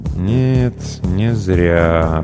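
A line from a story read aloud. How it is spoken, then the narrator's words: Drawn-out drawl. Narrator (Russian): протянул паранорм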